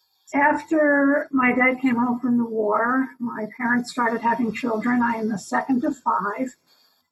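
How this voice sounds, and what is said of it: New York accent. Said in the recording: “You might hear my New York accent. It comes through on microphone”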